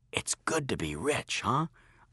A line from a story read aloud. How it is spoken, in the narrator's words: I whispered to Joshua